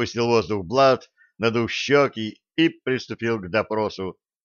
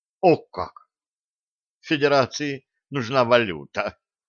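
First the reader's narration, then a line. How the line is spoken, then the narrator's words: Apologetic whisper. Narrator (Russian): извиняющимся тоном прошептал профессор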